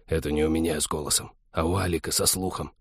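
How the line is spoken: Very quiet hiss. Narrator (Russian): прошипел Вадим таким пианиссимо

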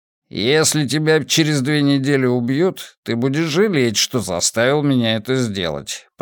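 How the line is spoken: Grumbling. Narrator (Russian): проворчал

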